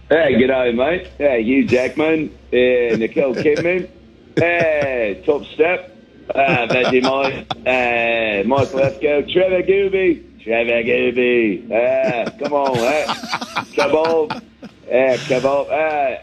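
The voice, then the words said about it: Put-on Australian accent. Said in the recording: “I hit down under and picked up a little bit of an accent.”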